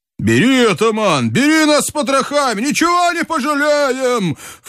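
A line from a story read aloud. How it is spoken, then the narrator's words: Ecstatic yell. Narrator (Russian): В полнейшем восторге завопил Брыкин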